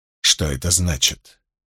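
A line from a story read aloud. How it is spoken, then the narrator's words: Icy question. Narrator (Russian): ледяным тоном спросила Илайн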